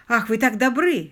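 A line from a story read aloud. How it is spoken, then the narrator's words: Surgeon exclaiming. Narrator (Russian): воскликнул хирург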